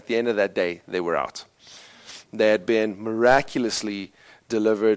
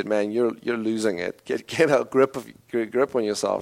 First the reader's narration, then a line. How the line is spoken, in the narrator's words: obviously mocked him and said